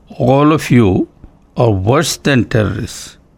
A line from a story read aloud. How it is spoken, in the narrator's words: Swami said slowly and emphatically